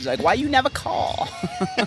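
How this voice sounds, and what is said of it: Mix of Jewish-mother and Chinese accents. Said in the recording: “That's my mom's accent. ... Mixture of Jewish mother and Chinese woman?”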